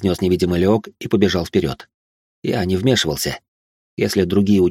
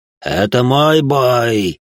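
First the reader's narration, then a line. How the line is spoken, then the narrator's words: Yelled in unnatural voice. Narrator (Russian): не своим голосом заорал Леок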